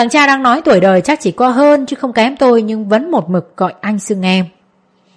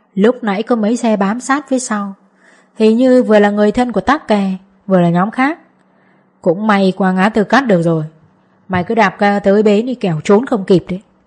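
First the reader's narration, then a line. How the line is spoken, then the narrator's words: Quiet man's voice. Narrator (Vietnamese): một gã khác nói khẽ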